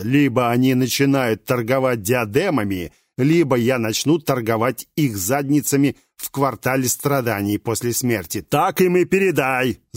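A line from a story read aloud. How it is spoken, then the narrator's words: Furious roar. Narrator (Russian): заорал так, что демон испарился в мгновение ока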